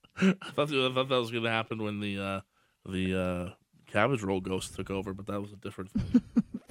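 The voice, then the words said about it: Recovering from a lost voice. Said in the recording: “Lost your voice a bit? ... I did. ... I'm much better.”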